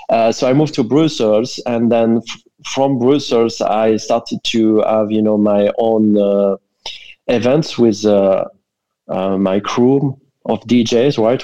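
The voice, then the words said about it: French accent. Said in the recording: “I'm French originally. I think everybody can tell, given my accent.”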